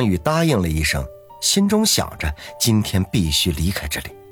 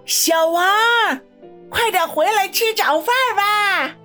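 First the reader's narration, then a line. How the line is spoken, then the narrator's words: Old woman, plain. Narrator (Chinese): 张老太……说道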